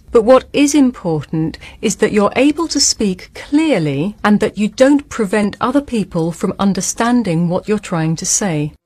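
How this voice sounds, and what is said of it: British RP accent. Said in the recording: “that's the British accent that we love so much. So that is RP, isn't it? Received pronunciation.”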